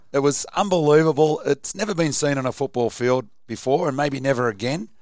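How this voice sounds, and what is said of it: Hoarse voice. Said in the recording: “you can also tell by ... voice how much cheering was going on at the stadium. Yes, I'm a bit hoarse today”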